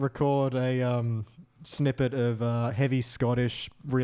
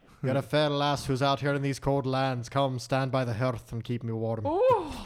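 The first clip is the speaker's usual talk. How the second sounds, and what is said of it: Put-on Scottish-style accent. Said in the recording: “Can you just keep doing that accent? That's quite sexy.”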